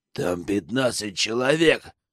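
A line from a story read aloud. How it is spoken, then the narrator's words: Hiss. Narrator (Russian): прошипел Лютый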